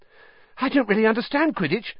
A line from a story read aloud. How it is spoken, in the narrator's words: said Colin, breathlessly